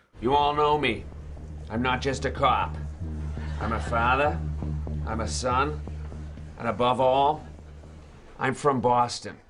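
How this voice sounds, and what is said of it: Boston accent, dropped R's. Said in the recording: “places like Boston or the South is that we don't drop the R when it comes after a vowel. Just listen to how late night host Seth Meyers pronounces father in this comedy sketch.”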